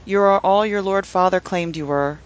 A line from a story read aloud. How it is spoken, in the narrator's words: said, his voice muffled by his dented great helm